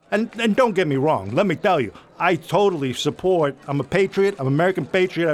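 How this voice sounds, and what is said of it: Italian Brooklyn accent. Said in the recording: “I identify as an Italian kid from Brooklyn. And this is why when I get upset like this, I slip into the accent.”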